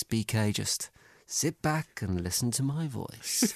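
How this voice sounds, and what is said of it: Soft relaxing soothing voice. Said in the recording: “I'll do it in a relaxing voice.”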